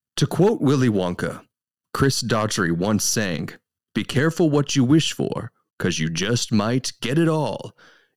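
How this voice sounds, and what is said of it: Movie trailer announcer voice. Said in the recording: “robot voice ... I'll just give you my movie phone voice.”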